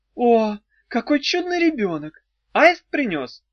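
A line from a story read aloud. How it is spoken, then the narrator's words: Exclamation. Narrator (Russian): воскликнул он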